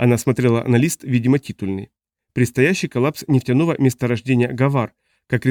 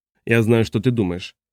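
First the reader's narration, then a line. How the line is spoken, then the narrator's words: Deliberately calm, clinical tone. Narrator (Russian): сказал он подчеркнуто спокойно, почти так, как разговаривают психиатры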